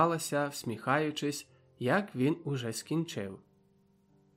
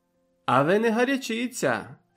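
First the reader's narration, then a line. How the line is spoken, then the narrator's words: Laughing. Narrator (Ukrainian): сміялася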